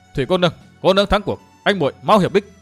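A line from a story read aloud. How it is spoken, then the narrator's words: Loud shout. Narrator (Vietnamese): Dương Viễn hét to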